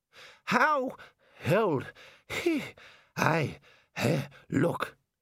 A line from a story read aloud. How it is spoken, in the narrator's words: he panted